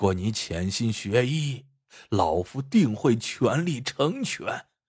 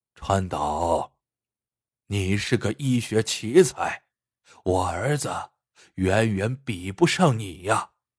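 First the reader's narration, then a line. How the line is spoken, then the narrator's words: Sighing old man. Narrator (Chinese): 耿爷一声叹息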